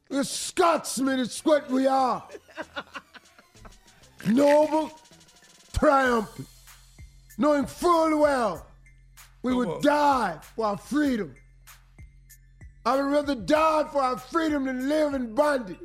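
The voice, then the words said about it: Put-on Scottish accent. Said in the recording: “I like his accent.”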